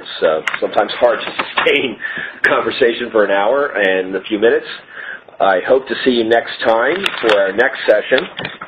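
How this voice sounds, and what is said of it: Strained, hoarse, fading voice. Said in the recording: “I'm sorry I was losing my voice there.”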